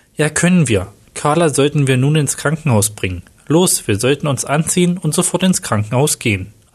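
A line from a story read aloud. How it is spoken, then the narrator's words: Plain. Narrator (German): antwortete Tim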